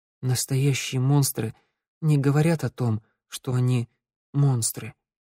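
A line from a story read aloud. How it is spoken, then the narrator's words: Quiet. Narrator (Russian): тихо проговорила Санда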